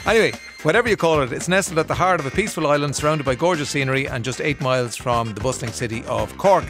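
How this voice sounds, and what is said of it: Irish Kildare accent. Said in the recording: “It's just the Kildare accent.”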